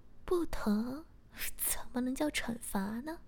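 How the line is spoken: Laughing. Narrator (Chinese): 我笑着说

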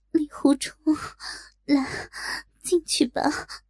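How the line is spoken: Panting. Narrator (Chinese): 喘息道

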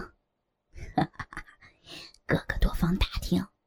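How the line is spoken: Laughing, low voice. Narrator (Chinese): 尤巴哈哈一笑，低声道

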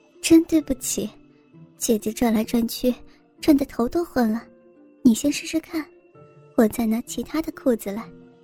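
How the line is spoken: Smiling with sudden realization. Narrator (Chinese): 一脸恍然大悟的笑着说

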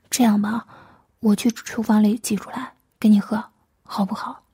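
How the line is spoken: Soft, soothing. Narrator (Chinese): 柔声安慰

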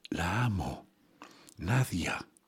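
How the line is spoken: Muffled murmur through coughing. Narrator (Spanish): me cubro la boca con un pañuelo y toso, y al llegar a la mitad de la colina alcanzo a musitar

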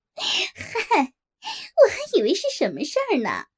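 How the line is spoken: Flirtatious laughter. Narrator (Chinese): 梅姐听完，忽然浪笑了起来

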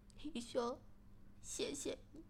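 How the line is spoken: Crying. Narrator (Chinese): 小柔马上哭着说

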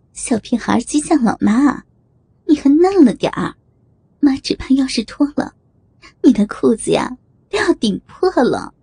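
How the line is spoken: Giggling. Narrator (Chinese): 宋如玉嘻嘻一笑

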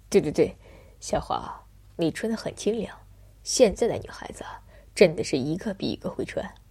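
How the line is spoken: Smiling. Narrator (Chinese): 我……笑着说道

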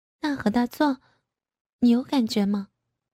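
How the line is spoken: Quiet, hesitant. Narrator (Chinese): 小声的说

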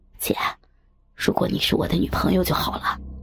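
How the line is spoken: Close whisper. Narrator (Chinese): 他忽然靠近我的耳边，小声的说

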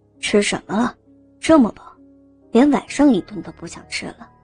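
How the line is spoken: Puzzled muttering. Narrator (Chinese): 武大郎疑惑的嘟囔着

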